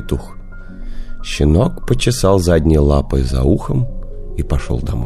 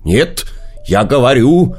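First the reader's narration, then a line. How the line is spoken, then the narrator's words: Rooster shouting. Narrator (Russian): петух закричал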